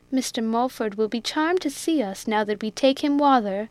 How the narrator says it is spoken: exclaimed Biddy

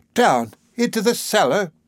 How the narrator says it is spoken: cried the old servant

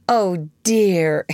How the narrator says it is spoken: exclaimed Wendy, with her first real twinge of remorse

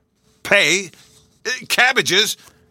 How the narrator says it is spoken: gasped Mr

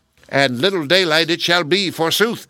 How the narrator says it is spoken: cried the bad fairy

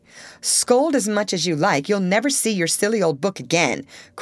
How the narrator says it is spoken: cried Amy, getting excited in her turn

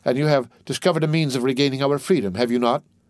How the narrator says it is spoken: asked Dantes eagerly

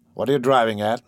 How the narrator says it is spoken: he said dryly

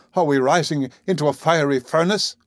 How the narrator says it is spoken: I cried at one moment, when the heat was redoubling

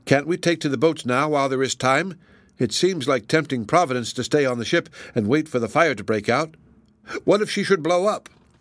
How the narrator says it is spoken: exclaimed his sister

